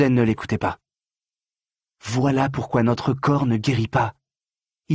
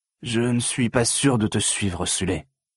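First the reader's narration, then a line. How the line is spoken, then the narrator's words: Hesitant giant. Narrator (French): dit le colosse d'une voix hésitante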